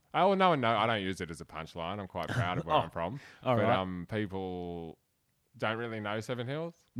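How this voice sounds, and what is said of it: Broad Australian Bogan accent. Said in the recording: “You've got the broadest Bogan accent, the most beautiful Bogan accent.”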